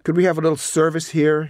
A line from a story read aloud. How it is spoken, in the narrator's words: shouted